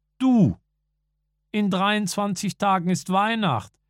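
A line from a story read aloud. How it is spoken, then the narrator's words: Calling into pram. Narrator (German): rief Werner in den Korbwagen hinein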